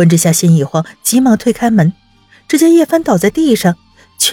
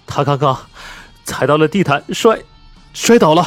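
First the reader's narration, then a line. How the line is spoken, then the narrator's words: Tearful murmur. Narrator (Chinese): 苏子言 眼睛都红了，嘴里喃喃道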